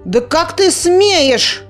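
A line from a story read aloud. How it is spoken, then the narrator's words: Shouting out. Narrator (Russian): выкрикнула Клякса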